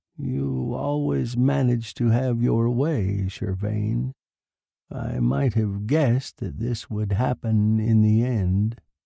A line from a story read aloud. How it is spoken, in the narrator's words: remarked quietly